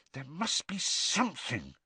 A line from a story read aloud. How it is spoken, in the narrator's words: Hermione muttered